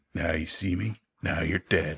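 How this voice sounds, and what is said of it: Duke Nukem character voice. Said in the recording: “in my best Duke Nukem voice.”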